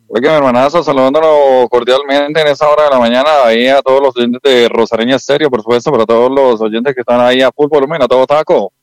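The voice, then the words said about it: Announcer-style radio voice. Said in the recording (Spanish): “usted tiene como voz de animador, también tiene voz de locutor”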